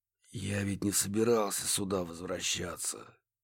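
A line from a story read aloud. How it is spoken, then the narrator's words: Barely audible. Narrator (Russian): едва слышно поделился О'Салливан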